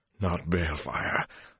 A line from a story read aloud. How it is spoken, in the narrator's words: Luce Theron panted at him